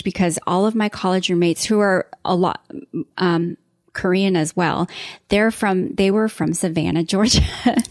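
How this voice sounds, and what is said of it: Southern American accent. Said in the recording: “I hear a Southern accent ... my accent got really thick ... my accent got like super heavy”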